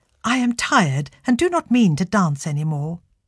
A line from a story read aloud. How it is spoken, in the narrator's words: she firmly replied